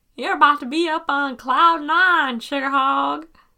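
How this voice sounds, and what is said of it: Bad put-on Southern accent. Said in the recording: “my accent attempt... that wasn't a very good accent... Bad Southern accent.”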